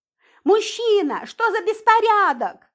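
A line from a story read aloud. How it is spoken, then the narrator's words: Shouting heavyset woman. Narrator (Russian): закричала одна грузная женщина на милиционера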